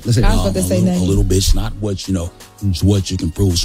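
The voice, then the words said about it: Imitates another person's voice. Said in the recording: “I used to do this Denzel impersonation”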